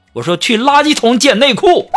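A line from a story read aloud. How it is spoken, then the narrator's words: Shouting at her. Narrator (Chinese): 然后我就冲她喊道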